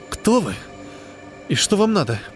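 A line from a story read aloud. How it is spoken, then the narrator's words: Hoarse rasp. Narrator (Russian): прохрипела Линда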